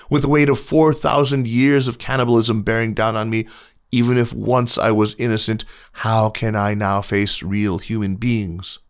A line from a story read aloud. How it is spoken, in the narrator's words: exclaimed